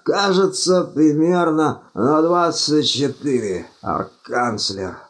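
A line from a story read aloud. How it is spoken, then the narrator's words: Moaning. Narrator (Russian): простонал Думинг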